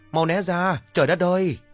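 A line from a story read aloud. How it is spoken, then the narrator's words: Panicked shout. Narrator (Vietnamese): Sột hoảng quá hét lớn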